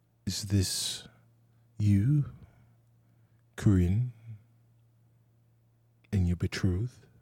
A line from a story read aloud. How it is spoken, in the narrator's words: he looks back at her, kind of wistfully, he says